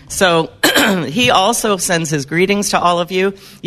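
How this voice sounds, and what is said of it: Hoarse, strained voice. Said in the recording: “I'm already losing my voice. I think I had too much fun last night.”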